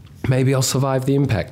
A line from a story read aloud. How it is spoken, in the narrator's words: thought desperately